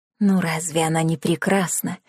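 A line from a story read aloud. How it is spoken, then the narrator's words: Whisper. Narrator (Russian): шепнула одна из теток Клары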